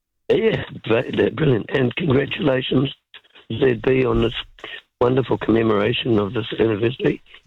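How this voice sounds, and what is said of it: Hoarse, sore-throat voice. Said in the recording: “My radio voice is compromised. I've got a throat”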